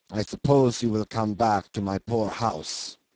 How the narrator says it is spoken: he muttered surlily

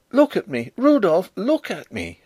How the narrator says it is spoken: she cried

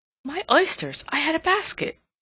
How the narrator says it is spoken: she exclaimed

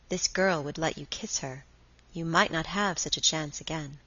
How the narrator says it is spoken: Deep down in him something whispered

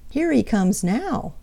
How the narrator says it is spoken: cried Jerry Muskrat

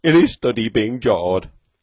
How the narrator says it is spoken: Beetle howled

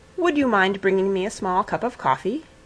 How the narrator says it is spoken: he said

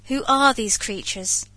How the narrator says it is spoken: said I, raising my voice more and more that it might reach them

